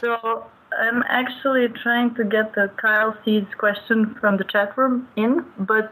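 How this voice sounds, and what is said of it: Foreign accent in English. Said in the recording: “the person with the weird accent ... who I mistakenly thought was French ... just living in France and from Serbia”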